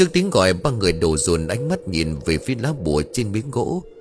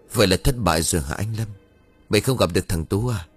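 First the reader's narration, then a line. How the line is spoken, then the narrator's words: Sighing. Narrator (Vietnamese): Tùng liền thở dài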